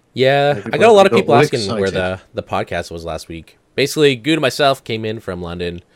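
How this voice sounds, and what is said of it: Congested voice from a cold. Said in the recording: “I got a cold. I don't know if you can still hear it in my voice. ... He's got nose aids.”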